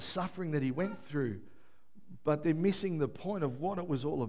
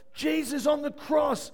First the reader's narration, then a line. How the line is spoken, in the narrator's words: he yelled out in a, cried out in a loud voice